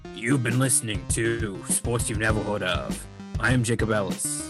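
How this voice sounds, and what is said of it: Exaggerated radio announcer voice. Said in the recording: “I'm going to go back into my radio voice ... This sounds more like a wrestler voice than a radio voice”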